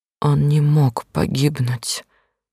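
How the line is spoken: Quiet. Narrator (Russian): тихо сказала я

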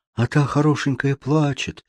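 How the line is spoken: Sighing. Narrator (Russian): вздохнула Марта

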